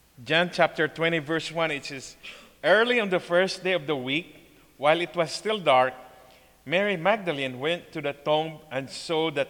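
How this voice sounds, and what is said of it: Ilonggo Filipino accent. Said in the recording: “you're going to hear my Ilonggo accent”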